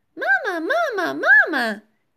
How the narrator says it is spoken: chirped Philip

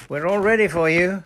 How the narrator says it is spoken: shouted Captain Nancy to the open moorland

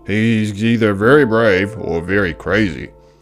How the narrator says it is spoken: growled a lion

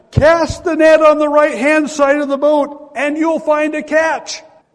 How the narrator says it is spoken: The stranger yells out again to them

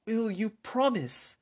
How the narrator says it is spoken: with a pleading fear and confusion

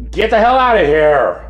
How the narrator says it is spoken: Linder actually shouted

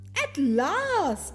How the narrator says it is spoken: the queen exclaimed

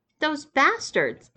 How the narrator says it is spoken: exclaimed Lisa

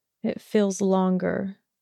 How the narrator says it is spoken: mumbled

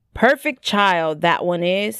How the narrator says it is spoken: he said

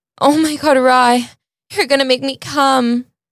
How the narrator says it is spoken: Scarlett moaned

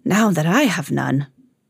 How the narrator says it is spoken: said the Raja with a sigh

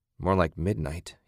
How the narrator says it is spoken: he muttered

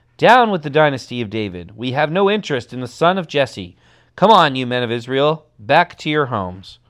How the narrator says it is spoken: began to shout

